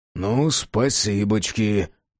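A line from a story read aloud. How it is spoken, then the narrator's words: Grumbling. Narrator (Russian): пробурчал Джек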